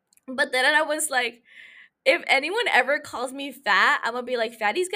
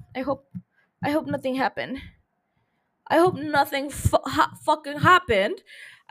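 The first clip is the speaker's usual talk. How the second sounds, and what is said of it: Speaking in a put-on accent. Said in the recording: “saying that with an accent.”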